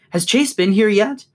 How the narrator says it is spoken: ask breathlessly

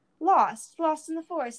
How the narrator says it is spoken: cried, sincere in his distress

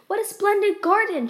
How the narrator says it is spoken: she exclaimed

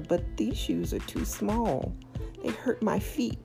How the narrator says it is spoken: tearfully told her

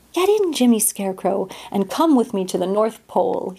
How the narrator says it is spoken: cried

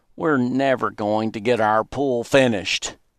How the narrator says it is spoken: Virgil groaned

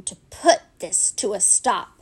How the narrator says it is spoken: he groaned

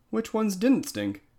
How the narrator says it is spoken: Gary asked eagerly

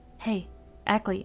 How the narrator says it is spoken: I said, in sort of a whisper, so Stradlater couldn't hear me through the shower curtain

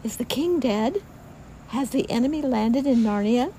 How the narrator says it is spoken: giggled the children

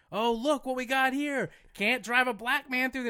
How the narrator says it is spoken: I was screaming out of my car

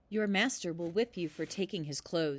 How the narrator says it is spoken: said

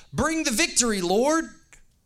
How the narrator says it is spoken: crowds, they all shouted

